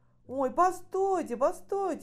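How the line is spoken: Sudden exclamation. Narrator (Russian): вдруг воскликнул Витя

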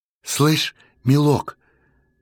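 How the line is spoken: Uncertain, doubtful woman. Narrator (Russian): неуверенно засомневалась тетка

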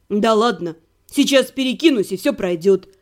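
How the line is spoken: Snorting chuckle. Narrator (Russian): Он хмыкнул

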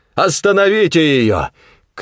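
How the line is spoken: Shouted. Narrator (Russian): крикнул Коллинз

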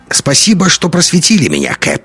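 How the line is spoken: Wry snort. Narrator (Russian): хмыкнул Догерти

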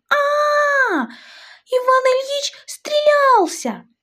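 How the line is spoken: Young woman screaming loudly. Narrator (Russian): Варя, миловидная девушка лет 20, дочь хозяина дома, и со всей мочи заорала

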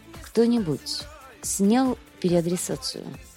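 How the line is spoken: Tired question. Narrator (Russian): Сантьяго устало спрашивает

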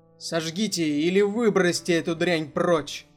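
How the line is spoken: Metallic voice. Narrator (Russian): продолжил металлическим голосом

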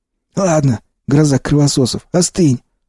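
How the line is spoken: Curt rebuke. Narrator (Russian): осадил меня Сиплый

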